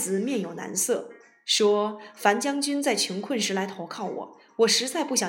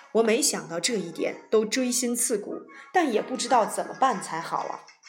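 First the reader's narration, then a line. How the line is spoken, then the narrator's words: Sighing, tearful. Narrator (Chinese): 樊於期仰天叹息，流着眼泪说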